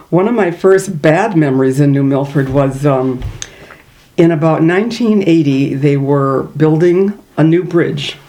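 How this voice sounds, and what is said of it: Minnesota accent. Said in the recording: “Maybe you can even hear some of my Minnesota accent.”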